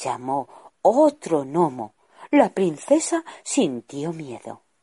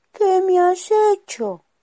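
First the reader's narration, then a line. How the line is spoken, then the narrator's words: Woman moaning. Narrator (Spanish): gimió ella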